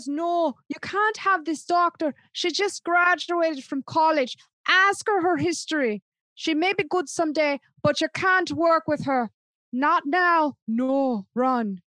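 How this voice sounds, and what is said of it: Imperfect put-on Irish accent. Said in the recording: “that was not the great Irish accent, but I try”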